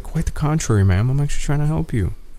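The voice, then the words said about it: Polite customer service voice. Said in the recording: “customer service voice”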